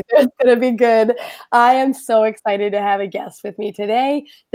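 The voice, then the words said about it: Hoarse, mostly lost voice. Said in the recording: “my voice is gone, so you're going to have fun with my funny voice”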